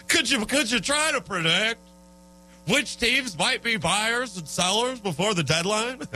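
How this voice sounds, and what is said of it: Usual voice. Nothing is said of it.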